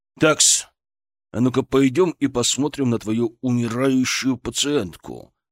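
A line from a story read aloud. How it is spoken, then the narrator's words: Growl through clenched teeth. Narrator (Russian): сжав зубы, прорычал Шаповалов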